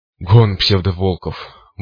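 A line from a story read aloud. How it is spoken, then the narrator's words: Breathless gasp. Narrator (Russian): выдохнул циклоп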